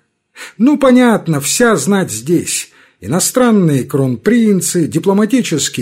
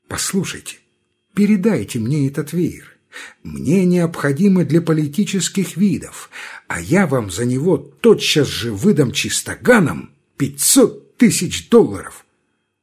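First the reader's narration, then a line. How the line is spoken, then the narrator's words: Quiet, confidential. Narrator (Russian): посланник американский, страшный богач, миллионер, говорит тихонько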